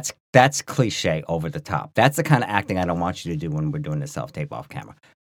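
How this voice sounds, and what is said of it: Usual voice. Nothing is said of it.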